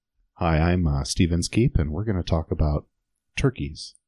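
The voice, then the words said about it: Imitates an NPR radio host voice. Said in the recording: “Is that your NPR voice?”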